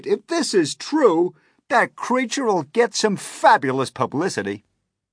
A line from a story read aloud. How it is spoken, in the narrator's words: no less than 52 policemen cried